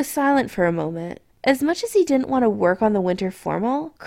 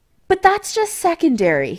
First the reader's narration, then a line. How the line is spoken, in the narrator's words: he added hastily